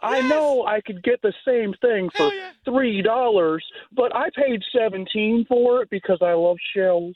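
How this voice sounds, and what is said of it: Imitates another person's voice. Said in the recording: “He's very easy to impersonate.”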